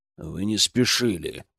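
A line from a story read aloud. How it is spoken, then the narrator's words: Irritated, through teeth. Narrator (Russian): процедил он раздраженно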